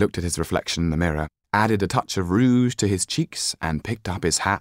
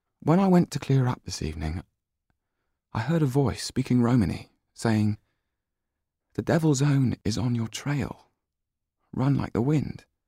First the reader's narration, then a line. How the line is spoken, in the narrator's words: said quietly